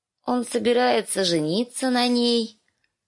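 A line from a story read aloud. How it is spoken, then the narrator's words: Sleepy child's voice. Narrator (Russian): Сонным голосом объявила кроха Бет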